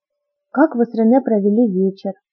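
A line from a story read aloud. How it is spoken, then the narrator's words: Plain question. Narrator (Russian): спросила я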